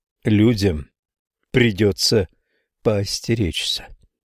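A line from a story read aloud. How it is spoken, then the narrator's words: Plain. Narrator (Russian): говорит он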